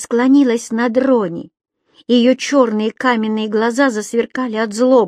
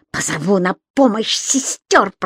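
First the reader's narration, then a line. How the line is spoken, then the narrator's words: Hissing. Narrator (Russian): прошипела она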